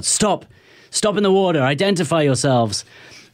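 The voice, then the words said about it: Shouted English-accented commands. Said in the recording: “This English accent comes out.”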